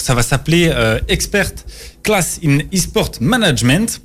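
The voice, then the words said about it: English accent on English words. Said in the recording (French): “Vous, vous m'excuserez pour euh, le petit accent euh, anglais.”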